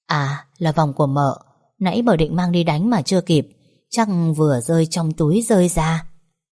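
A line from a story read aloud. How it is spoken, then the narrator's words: Soft reply. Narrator (Vietnamese): Tôi khẽ đáp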